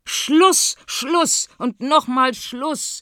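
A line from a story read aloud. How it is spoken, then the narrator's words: Royal couple calling together. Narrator (German): ruft das Königspaar wieder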